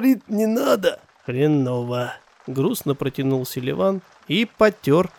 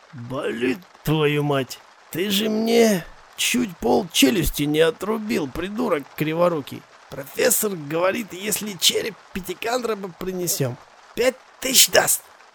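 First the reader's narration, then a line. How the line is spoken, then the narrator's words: Hoarse wheeze. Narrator (Russian): прохрипел Архип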